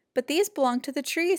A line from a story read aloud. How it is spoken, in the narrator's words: said Fletcher